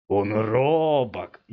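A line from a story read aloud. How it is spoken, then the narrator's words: Hoarse giggle turning to growl. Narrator (Russian): хриплое хихиканье здоровяка вдруг перешло в рычание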